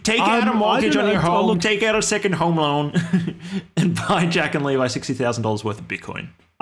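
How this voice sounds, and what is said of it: Imitates another person's voice. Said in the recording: “your Michael Saylor impression ... I need to improve my Michael Saylor impression.”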